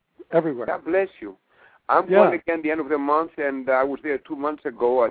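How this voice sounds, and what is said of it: Greek accent in English. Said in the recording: “The accent here is Greek”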